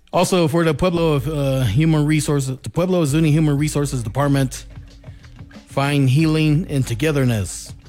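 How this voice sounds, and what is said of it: Voice giving out, strained. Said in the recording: “I'm losing my voice.”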